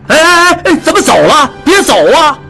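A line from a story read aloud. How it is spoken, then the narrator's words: Urgent shout. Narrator (Chinese): 店主急叫道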